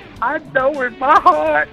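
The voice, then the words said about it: Imitates a man's crying voice. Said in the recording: “he sounds just like the black guy that does, like, the best cry ever ... that's a very good impression.”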